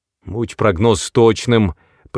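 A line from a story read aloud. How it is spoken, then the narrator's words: Growl. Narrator (Russian): прорычал Паулсон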